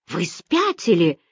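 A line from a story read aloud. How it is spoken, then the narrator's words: Barking. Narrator (Russian): рявкнул Берг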